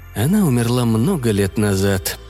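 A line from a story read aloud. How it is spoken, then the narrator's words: Heavy sigh. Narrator (Russian): тяжело вздохнув, ответил я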